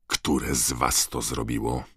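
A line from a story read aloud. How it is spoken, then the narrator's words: Angry growl. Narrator (Polish): warknął, obrzucając ich wściekłym spojrzeniem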